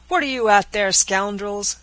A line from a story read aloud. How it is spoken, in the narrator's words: cried Lieutenant Mason